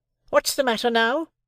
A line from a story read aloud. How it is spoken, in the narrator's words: repeated my sister more sharply than before